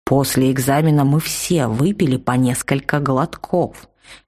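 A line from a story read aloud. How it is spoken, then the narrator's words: Icy tone. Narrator (Russian): ледяным тоном сообщил учитель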